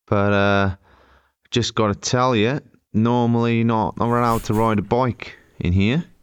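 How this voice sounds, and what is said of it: Attempted Australian accent, not convincing. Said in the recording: “How's this accent coming on, by the way? ... It started bad. It's improved slightly. It's still not Australian”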